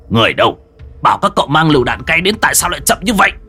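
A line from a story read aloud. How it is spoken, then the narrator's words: Shout. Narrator (Vietnamese): Hàn Tu quát cấp dưới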